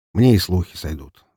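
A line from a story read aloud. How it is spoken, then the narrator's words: Sighing. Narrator (Russian): вздохнул Громов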